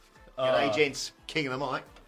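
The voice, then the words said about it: Put-on Australian accent. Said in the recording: “rather than an Australian accent”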